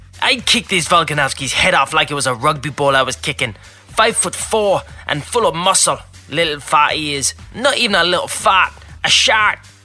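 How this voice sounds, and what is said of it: Imitates another person's voice, put-on accent. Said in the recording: “if you'll excuse the accent”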